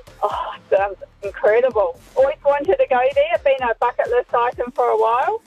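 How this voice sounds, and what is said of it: New Zealand accent. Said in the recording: “do I sense a Kiwi accent? ... you've held on to it”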